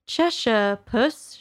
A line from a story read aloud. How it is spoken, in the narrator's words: she began, rather timidly